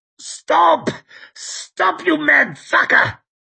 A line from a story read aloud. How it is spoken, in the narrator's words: Savian he was croaking